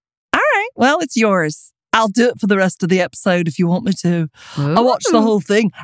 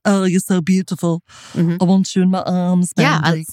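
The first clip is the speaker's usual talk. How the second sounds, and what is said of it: Imitates another person's voice. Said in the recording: “I could listen to your John Lennon impersonation all day long and be happy... I'm not sure I'm doing it right... Then I could have gotten the voice down better.”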